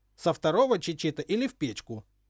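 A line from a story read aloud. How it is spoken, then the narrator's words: Stern, final woman. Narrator (Russian): строго поставила точку в споре попечительница школы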